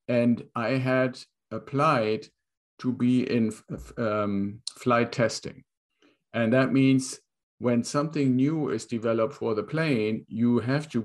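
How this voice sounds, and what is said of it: German accent. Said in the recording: “where does this accent come from? I was born in Germany”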